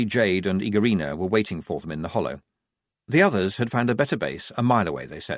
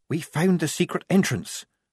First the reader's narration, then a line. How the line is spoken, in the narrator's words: said Polly quietly